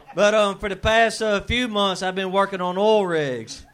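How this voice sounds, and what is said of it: Southern American accent. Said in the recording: “moved from the South, it's fun being a Southerner ... my accent”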